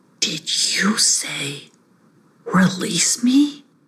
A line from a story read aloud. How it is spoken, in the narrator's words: Hissyfit whispered